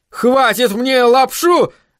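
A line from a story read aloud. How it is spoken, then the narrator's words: Furious yell. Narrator (Russian): в ярости заорал Айзек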